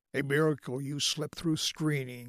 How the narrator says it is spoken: Oliver chuckled

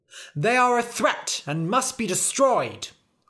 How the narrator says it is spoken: cried the knights

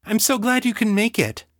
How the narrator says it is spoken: she cried

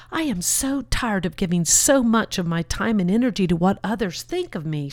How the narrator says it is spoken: stated urgently, forcefully

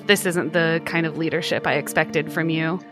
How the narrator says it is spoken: she mutters under her breath

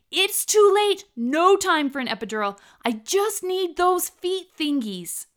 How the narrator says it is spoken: shouted

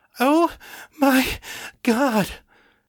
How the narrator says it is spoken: Emily cried, her whole body shaking with orgasm

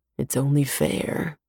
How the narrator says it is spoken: he murmurs

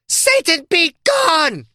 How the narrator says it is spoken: Erickson screamed

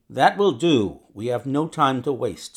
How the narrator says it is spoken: said my companion firmly

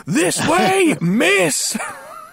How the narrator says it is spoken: he screams in her face

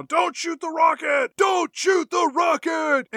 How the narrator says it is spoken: Nicolas Cage is just screaming

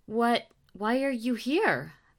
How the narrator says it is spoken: Victoria stammered

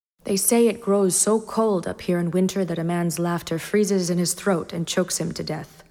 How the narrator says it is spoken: Ned said evenly

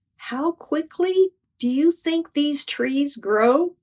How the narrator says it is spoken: Lord whispered

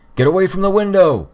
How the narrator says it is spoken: Assault bellowed

